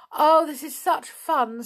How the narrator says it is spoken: said Anne, wiping the tears of laughter from her eyes

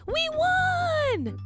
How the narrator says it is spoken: I yell

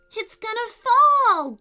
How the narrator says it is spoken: Jacob cried

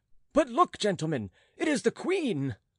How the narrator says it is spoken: The same man whom Jean had heard speak before now called out

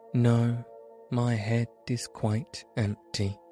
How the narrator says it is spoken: answered the Woodman

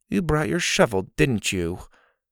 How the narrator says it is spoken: Dillon sighed

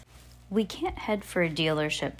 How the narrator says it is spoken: Violet said

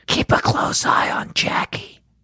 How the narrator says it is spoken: Christy whispered

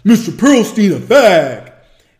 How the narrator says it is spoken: in a deep voice

